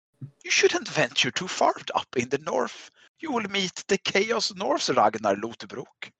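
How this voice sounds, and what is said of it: Put-on Scandinavian accent, Vikings extra. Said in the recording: “I just imagine they sound like the extras from Vikings now ... one dude has a Scandinavian accent”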